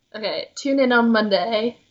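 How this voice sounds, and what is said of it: Fairly good put-on British accent. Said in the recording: “Do you want to do a British accent? ... That was pretty good!”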